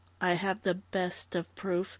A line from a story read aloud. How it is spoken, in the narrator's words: Dundee said quietly